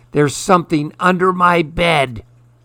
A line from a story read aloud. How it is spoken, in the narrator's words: The gray girl shrieked